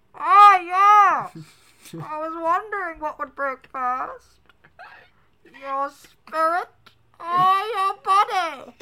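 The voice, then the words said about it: Bane villain character voice impression. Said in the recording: “you want to hear my Bane impression?”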